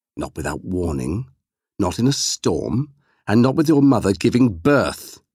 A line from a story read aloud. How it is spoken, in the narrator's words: said sharply, as if to scold a child